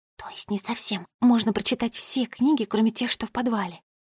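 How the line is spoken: Very quiet whisper. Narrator (Russian): Она очень тихо прошептала

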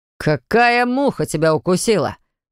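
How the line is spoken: Roared right by the ear. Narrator (Russian): взревел Виталик у него над ухом

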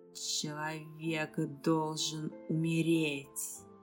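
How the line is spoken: Distinct hiss. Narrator (Russian): Я отчетливо услышала шипение

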